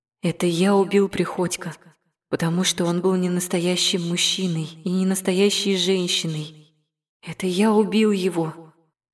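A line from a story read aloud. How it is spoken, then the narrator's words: Breathless, confiding tone. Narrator (Russian): страшно запыхавшись доверительным тоном сообщил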